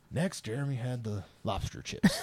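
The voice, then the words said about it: Poor imitation of a celebrity narrator. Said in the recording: “It's a horrible Morgan Freeman impersonation.”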